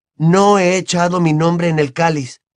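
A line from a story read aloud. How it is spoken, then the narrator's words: Exclamation, growing angry. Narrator (Spanish): exclamó Harry comenzando a enfadarse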